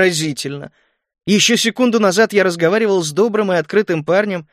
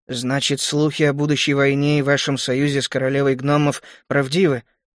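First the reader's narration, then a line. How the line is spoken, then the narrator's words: Tired mumble. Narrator (Russian): устало пробормотал принц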